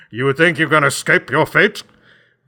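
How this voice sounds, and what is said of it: Menacing evil character voice. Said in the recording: “evil voice”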